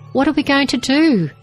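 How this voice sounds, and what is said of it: Panicked voice. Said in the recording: “in a panicked voice.”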